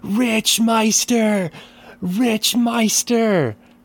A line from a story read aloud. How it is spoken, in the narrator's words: as they scream